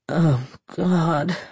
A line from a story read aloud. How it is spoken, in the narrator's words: she moaned